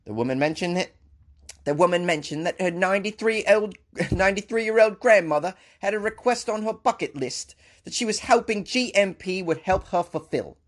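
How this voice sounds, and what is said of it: Put-on UK-Australian mixed accent. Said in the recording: “I should probably do a UK accent. ... That was a mixture of, I think, the UK and Australian”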